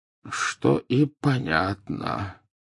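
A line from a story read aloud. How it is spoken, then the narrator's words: Muttered. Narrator (Russian): пробормотал Дамблдор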